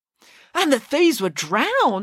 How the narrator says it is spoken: exclaimed Michael

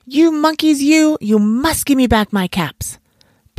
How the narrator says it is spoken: He stamped both his feet and shouted

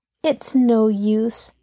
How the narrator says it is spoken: sighed

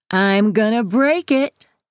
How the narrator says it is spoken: taunts

